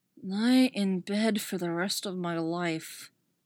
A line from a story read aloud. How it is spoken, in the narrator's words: Poe mutters